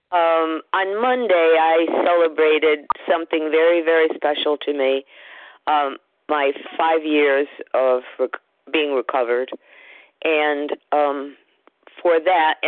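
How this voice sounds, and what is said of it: Slightly odd, unwell-sounding voice. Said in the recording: “I sound a little weird, I've been sick all week.”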